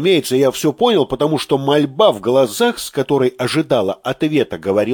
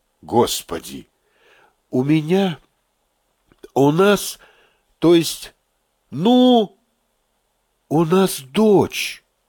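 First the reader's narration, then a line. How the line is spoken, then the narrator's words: Plain. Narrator (Russian): сказала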